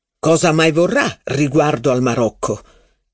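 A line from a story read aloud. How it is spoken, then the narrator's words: Stern question. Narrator (Italian): chiese con voce severa il signor di Guermantes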